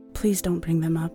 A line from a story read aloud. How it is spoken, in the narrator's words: Danny whispered